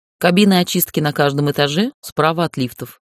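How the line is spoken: Matter-of-fact tone. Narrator (Russian): сказала будничным тоном

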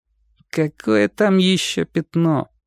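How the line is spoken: Stubborn boy's grumble. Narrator (Russian): пробурчал мальчик, упрямо

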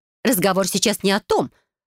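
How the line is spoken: Angry, restrained, through teeth. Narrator (Russian): зло, но все еще сохраняя остатки самообладания, цедит мамуля

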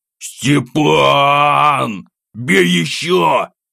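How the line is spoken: Frantic scream. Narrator (Russian): Истошно завопил я

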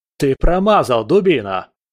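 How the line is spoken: Barked. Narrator (Russian): рявкнул другой генерал

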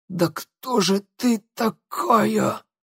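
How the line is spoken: Angry hoarse wheeze, coughing. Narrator (Russian): Злобно прохрипела она и закашлялась

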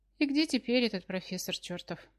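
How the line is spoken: Sighing. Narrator (Russian): вздохнула

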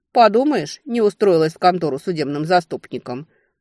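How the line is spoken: Scornful snort. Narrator (Russian): фыркнула Летиция

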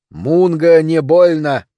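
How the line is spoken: Growl. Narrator (Russian): прорычал я

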